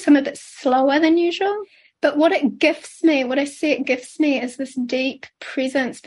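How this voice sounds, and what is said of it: Scratchy, slightly sick voice. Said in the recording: “you can hear my voice is a little scratchy, and I feel a bit sick”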